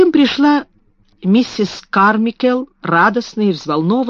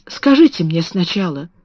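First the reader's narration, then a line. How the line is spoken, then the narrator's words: Whisper. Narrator (Russian): прошептала Сара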